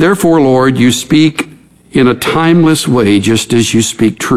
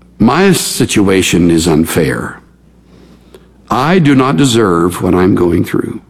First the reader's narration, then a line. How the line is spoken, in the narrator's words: who would say with a sigh